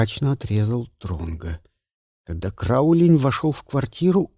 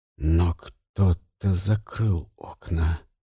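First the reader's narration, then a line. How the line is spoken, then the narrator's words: Quiet. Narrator (Russian): тихо произнес Дронго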